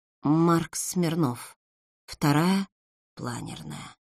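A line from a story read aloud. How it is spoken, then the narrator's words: Frightened mutter. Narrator (Russian): пробормотала побледневшая Светлана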